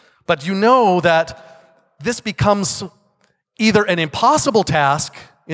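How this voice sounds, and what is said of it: Usual voice. Nothing is said of it.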